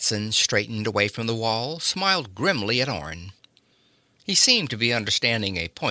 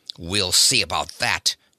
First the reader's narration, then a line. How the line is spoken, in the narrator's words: barked Spencer